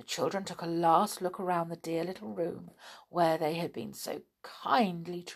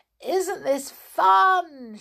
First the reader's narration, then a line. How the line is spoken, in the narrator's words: shouted Peter to Mary